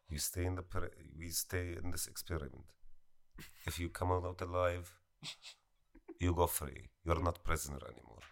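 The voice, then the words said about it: Put-on foreign accent. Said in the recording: “That's actually the way you said experiment. I really like that. That was real good. ... keep doing the accent. I thought it was cool.”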